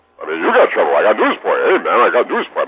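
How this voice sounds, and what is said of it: Rodney Dangerfield impression. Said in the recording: “I did Rodney Dangerfield ... doing an impression of Rodney Dangerfield”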